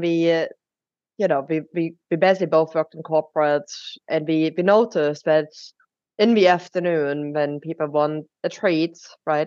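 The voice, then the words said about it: German accent. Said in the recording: “we're both originally from Germany, which is where my accent is coming from”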